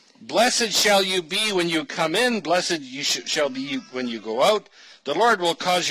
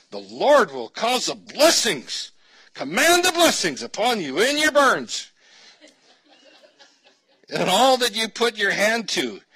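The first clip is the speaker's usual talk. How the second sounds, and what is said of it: Put-on Southern televangelist accent. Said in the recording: “you need to be saying the rest of this with a bit of a southern accent, because you've heard these verses, right? This is main time on TBN”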